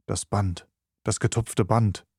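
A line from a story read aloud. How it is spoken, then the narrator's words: Whispering. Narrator (German): flüsterte Holmes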